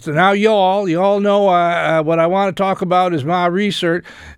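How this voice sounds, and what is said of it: Put-on West Virginia accent. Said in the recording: “a man from West Virginia ... that accent”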